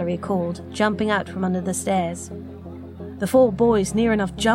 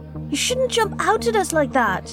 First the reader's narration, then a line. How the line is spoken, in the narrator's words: Harold blurted